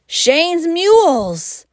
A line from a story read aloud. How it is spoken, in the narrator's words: shouted Curtis